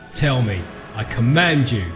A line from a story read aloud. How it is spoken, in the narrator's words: I cried